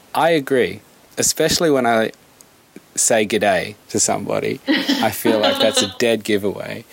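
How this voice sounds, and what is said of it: Australian accent. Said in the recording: “your accent is Australian”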